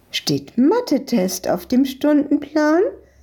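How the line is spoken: Woman calling out. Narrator (German): rief die Besitzerin von der Eisdiele ihnen zu

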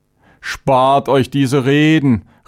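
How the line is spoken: Angry outburst. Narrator (German): rief Chavénes aufbrausend

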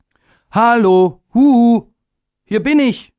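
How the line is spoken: Called out. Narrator (German): rief er

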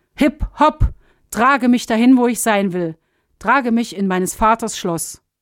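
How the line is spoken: Called out. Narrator (German): rief

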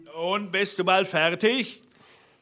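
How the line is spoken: Called from below. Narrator (German): rief der Blaubart unten

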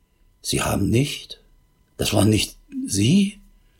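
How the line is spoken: Distraught barely audible stammer. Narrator (German): völlig aus der Fassung und stammelte kaum hörbar

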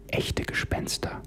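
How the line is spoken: Trembling, barely audible whisper. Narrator (German): Rebecca flüsterte mit zittriger Stimme und kaum hörbar

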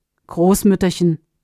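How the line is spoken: Plain. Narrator (German): sagte Argirus

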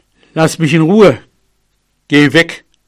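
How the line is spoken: Plain. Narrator (German): sagte er

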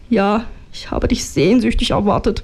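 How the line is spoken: Blurting, husky voice. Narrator (German): brach ich mit belegter Stimme heraus

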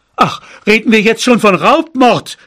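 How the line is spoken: Shout. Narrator (German): schrie mein Vater

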